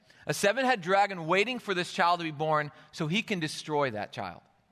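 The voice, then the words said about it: Michigan accent. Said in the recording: “I'm a Michigan boy, and so it's very hard for me not to say dragon. That's my natural accent”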